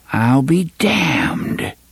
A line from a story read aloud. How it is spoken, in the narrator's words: Jonas whispered